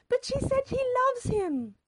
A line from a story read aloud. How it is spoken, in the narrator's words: Mother cried